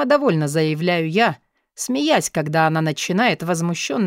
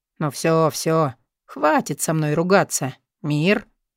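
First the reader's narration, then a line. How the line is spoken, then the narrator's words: Laughing. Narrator (Russian): смеясь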